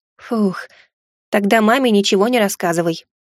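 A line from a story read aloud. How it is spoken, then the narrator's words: Relieved exhale. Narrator (Russian): облегченно выдохнул я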